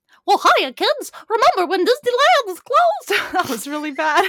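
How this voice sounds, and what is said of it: Poor cartoon mouse impression. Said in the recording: “worst Mickey Mouse impression”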